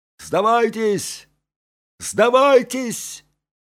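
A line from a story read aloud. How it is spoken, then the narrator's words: Shouting. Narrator (Russian): закричали англичане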